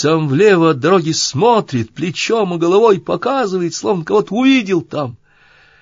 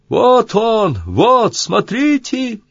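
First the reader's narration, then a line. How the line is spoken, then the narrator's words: Sudden shout. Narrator (Russian): Да как крикнет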